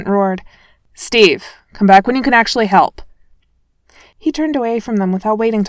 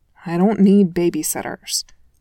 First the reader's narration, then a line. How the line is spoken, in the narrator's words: Clint mumbled sourly